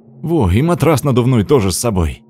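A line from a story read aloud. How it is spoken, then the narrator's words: Joyful exclamation. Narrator (Russian): радостно воскликнул Тёма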